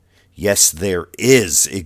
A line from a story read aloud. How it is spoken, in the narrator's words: Xavier shouts